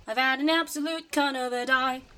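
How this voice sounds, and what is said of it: Put-on Australian accent character voice. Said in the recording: “The Australian accent is back in force.”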